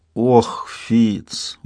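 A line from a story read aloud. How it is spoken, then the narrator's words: Reproachful drawl. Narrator (Russian): укоризненно протянул Шут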